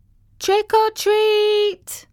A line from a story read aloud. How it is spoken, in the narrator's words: the kids screamed